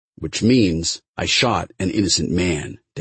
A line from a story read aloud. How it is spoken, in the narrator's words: Dad said